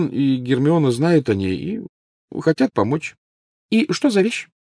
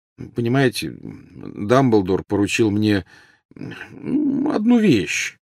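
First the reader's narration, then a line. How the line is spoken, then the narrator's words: Mumbled. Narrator (Russian): промямлил Гарри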